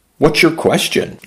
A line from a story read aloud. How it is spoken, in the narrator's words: Jay asked